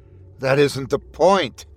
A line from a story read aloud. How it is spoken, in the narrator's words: Skinny snapped